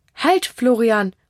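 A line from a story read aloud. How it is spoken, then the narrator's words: Mother calling back. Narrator (German): ruft Mama ihn zurück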